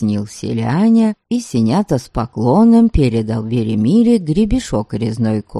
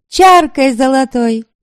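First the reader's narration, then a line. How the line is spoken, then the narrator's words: Woman's shout. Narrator (Russian): выкрикнула одна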